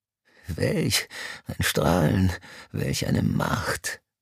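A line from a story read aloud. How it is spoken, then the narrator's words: Panting. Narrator (German): keuchte Mr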